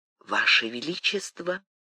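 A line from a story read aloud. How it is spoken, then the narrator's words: Sympathetic whisper. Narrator (Russian): прошептала кормилица, соболезнующе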